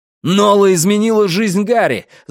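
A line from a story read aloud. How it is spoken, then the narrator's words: Yelling. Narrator (Russian): заорал я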